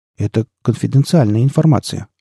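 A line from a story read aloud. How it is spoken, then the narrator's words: Timid evasive. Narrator (Russian): робко попытался уйти от ответа Батник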